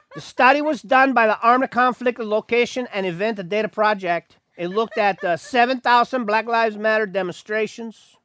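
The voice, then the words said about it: Put-on Mexican accent. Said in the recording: “Nope, I'm going back into the Mexican thing. I can't help it.”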